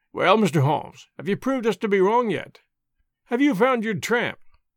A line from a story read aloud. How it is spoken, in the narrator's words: he cried